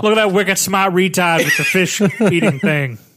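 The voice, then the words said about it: Poor put-on Boston accent. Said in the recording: “Our Boston accents suck ... it was in a Boston accent”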